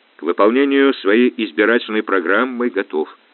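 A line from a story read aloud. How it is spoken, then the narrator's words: Plain. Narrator (Russian): ответил Успенский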